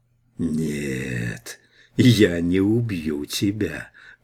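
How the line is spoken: Creaking metallic voice. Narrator (Russian): проскрипел металлический мертвец

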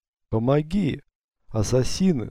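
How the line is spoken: Weak call in Greek. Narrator (Russian): слабым голосом позвал Юсуф по-гречески

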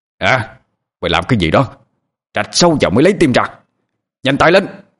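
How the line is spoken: Barked command. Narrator (Vietnamese): Mô lệnh lại quát lên

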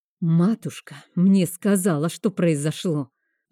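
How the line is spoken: Angry hiss up close. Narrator (Russian): Зло зашипел он мне в лицо

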